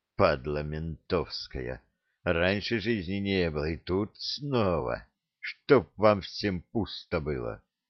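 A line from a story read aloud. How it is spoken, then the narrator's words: Ferryman's angry muttering. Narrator (Russian): бормотание паромщика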